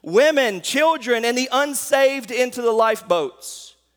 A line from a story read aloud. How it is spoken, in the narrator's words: him shout